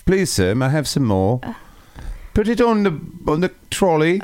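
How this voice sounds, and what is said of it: Poor put-on English accent. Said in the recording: “English accent ... I don't have a good accent at all.”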